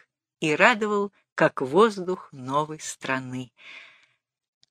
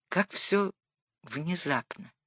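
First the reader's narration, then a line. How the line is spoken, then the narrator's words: Quiet. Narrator (Russian): промолвил он тихо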